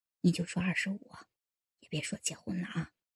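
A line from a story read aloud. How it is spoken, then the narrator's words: Whispering. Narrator (Chinese): 老牛头 小声说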